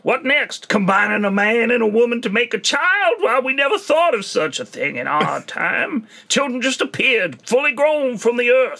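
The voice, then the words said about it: Breathless old Wild West American accent. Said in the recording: “an American Wild Western man accent who's short of breath all the time as well ... It's a comical accent”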